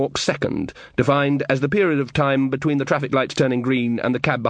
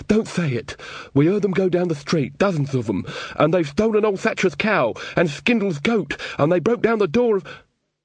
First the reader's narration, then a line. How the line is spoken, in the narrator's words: said Weaver, his eyes full of pleading